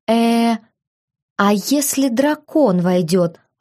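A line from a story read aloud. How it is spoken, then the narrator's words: Timid question. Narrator (Russian): робко спросила я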